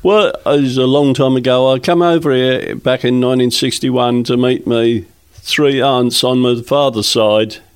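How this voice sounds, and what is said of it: Australian accent. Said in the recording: “from your accent, that you're probably from a different part of the world ... from Australia”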